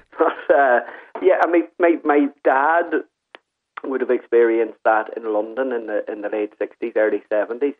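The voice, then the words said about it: Irish accent. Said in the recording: “when they would hear my accent”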